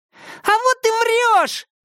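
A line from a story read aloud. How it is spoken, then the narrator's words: Small boy's shriek. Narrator (Russian): провизжал маленький оборванец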